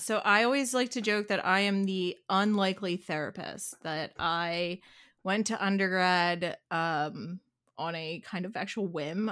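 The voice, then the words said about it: Philadelphia Delco accent. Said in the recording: “born and raised right here, right, in Philly, and that you have a Delco accent”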